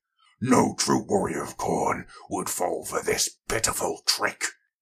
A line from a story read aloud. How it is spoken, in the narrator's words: he bellowed